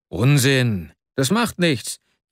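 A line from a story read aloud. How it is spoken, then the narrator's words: Calling out. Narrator (German): rief Arkadi Iwanowitsch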